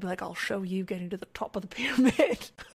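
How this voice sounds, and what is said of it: Attempted Tormund impression with accent. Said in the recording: “he'd have his great accent... He doesn't sound like that, everyone, but that was my best try there”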